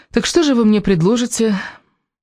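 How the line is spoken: Serious, worried tone. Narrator (Russian): Элис произнесла эту фразу уже другим, серьезным, даже озабоченным тоном

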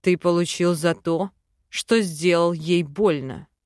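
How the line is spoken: Cold, clipped. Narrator (Russian): холодно отчеканил Арван

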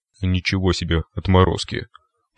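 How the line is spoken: Muttering over speaker. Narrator (Russian): пробормотал в динамике голос Циклопа

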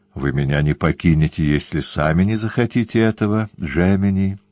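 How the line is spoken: Plain. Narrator (Russian): сказала она

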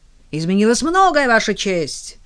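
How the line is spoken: Shouting out. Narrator (Russian): выкрикнул Крамер

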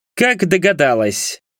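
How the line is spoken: Cold question. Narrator (Russian): спросил он холодно

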